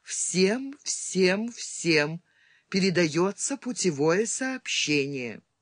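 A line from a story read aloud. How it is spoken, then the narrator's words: Harsh flat machine voice, slow. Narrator (Russian): Жесткий, слабо модулированный голос, каким говорили малогабаритные переводные машины на кораблях, медленно произнес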